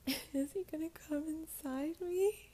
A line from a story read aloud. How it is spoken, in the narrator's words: she sobbed